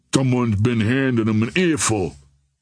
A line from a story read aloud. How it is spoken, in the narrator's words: grumbled Cassidy